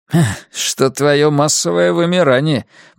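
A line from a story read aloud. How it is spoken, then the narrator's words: Hissed through teeth. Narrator (Russian): процедил Найджел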